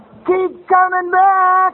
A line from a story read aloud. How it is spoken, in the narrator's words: one of the old-timers yell out